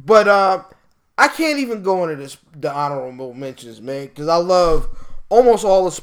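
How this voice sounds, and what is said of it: Usual voice. Nothing is said of it.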